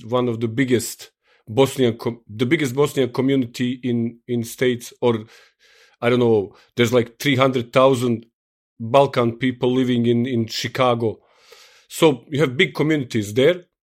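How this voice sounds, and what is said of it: Strong Eastern European accent. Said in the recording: “I like to speak my English with very hardcore East European accent ... my hardcore East European accent”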